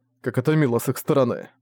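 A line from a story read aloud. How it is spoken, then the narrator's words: Cold. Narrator (Russian): холодно сказал Зориан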